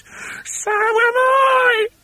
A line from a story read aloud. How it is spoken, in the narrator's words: cried Mrs